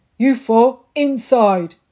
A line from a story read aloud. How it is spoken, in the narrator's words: He roared